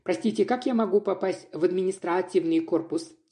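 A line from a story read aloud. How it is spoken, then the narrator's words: Plain. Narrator (Russian): спросила я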